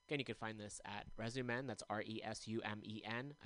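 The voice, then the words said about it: Talking very fast. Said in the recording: “I don't know why I'm talking so fast.”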